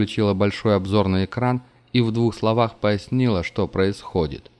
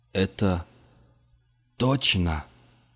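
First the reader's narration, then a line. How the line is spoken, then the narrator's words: Forced out reluctantly. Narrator (Russian): наконец выдавил из себя Мартин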